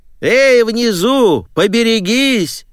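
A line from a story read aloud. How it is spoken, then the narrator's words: Grandmother shouting. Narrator (Russian): выкрикнула бабушка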